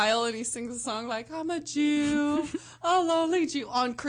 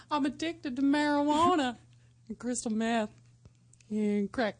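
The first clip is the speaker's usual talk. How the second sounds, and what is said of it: Imitates a cartoon towel character's voice. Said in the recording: “doing an impression of a towel”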